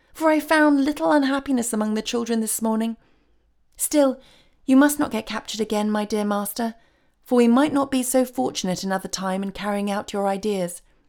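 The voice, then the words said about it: Pleased, happy voice. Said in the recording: “cried the fairy in a pleased voice”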